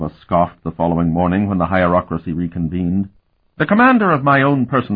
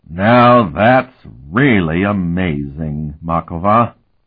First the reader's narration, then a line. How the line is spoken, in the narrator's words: Patriarch Emban drawled